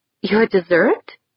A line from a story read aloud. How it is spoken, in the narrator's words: giggled